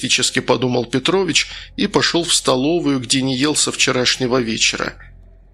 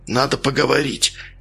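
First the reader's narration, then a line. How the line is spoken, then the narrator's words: Whisper. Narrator (Russian): шепнул Наумочкин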